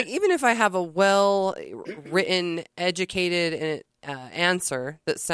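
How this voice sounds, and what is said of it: Usual voice. Nothing is said of it.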